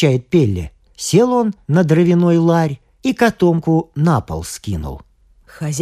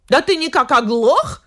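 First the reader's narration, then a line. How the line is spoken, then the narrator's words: Shouting again. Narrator (Russian): опять закричала хозяйка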